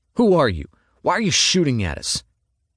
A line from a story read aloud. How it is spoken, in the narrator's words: He spat